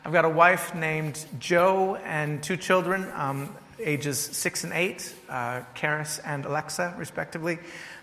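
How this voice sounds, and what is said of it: Faint American accent. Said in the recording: “Originally from America, as you can probably hear in my voice a little bit. It's muddied now.”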